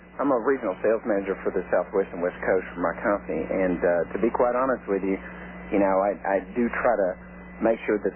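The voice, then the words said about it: Thick local Texas accent. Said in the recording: “you got a thick accent ... your accent's horrible ... I don't understand how people around here get such an accent”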